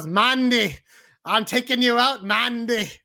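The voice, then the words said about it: Weird accent imitating another person. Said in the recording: “in a weird accent? ... Because Alba always goes”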